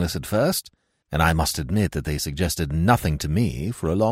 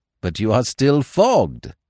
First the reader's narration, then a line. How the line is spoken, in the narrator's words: he cried